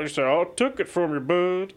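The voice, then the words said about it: Imitates another person's voice. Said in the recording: “That's a worse impression than my Herschel impression ... That was an on-the-spot George Foreman impression.”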